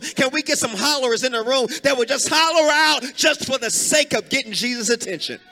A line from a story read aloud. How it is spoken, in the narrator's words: He hollered out, Debashi